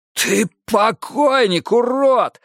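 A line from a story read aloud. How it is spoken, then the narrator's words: Hoarse rasp. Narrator (Russian): хрипел монах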